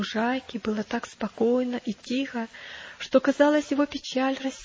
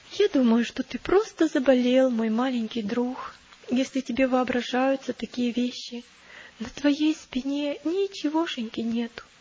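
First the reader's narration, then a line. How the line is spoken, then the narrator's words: Sad. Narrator (Russian): Христиана печально посмотрела на него и сказала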